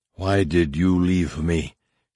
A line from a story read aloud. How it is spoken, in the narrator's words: she heard it whisper into her thoughts